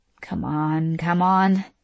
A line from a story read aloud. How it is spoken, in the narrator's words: Gia murmured